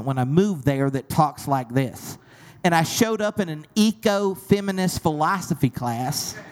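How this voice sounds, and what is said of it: Southern US accent. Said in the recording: “you have a Southern accent ... you have my accent”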